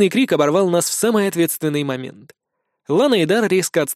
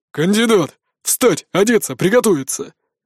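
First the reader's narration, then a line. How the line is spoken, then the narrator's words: Barked military-style command. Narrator (Russian): По-армейски рявкнул мой тренер, помощник, наставник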